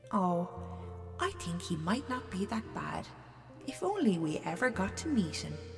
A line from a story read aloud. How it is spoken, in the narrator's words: the old lady would just chuckle to herself and say